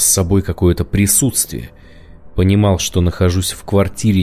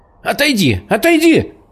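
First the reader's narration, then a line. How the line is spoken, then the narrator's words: Shouting while on the move. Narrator (Russian): кричала она на ходу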